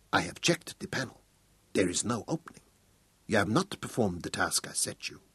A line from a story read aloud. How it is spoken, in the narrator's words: suddenly, she leaned towards him until her face almost touched his and whispered